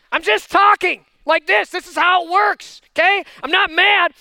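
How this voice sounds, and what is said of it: Loud, intense talking voice. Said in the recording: “my talking voice is a yelling voice”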